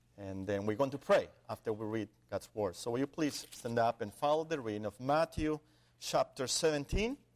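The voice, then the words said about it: Speaks English with an accent. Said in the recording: “so you can get used to my accent and see how I pronounce the words”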